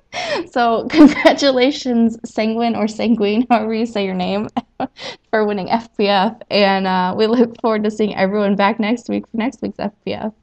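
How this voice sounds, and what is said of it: Regional rural American accent. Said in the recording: “regional dialect difference. My horrible accent coming out. I try really hard to hide my accent ... some sort of redneck”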